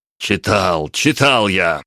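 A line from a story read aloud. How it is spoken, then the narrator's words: Emperor exclaiming. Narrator (Russian): воскликнул император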